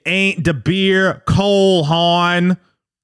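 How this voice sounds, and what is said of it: Deliberately bad Baltimore accent. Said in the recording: “That's my terrible Baltimore accent.”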